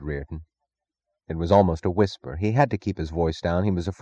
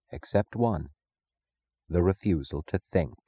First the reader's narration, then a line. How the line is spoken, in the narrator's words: Francisco said softly